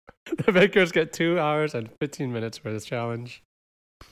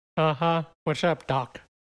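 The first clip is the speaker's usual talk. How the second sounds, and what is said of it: Bad Bugs Bunny cartoon voice. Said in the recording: “That's a bad impression ... it's getting worse”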